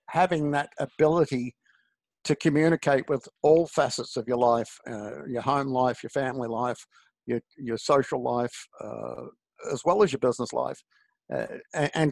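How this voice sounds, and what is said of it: Australian accent. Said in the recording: “I will give the accent a bit of credit over here in America. I'm a little bit different than back home. I'm just another bloody Aussie”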